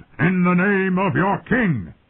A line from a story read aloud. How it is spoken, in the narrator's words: boomed